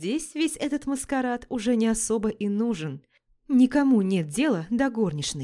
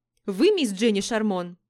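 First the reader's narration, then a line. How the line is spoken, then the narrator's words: Sharp, abrupt blurt. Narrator (Russian): С порога выстрелила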